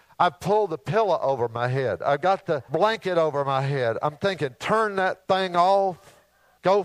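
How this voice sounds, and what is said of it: Usual voice. Nothing is said of it.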